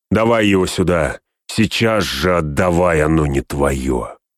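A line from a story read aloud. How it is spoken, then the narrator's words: Shouted in a strange voice. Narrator (Russian): выкрикнул каким-то чужим голосом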